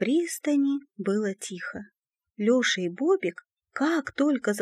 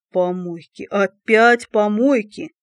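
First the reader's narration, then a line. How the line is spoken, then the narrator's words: Groaning. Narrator (Russian): простонал Колобок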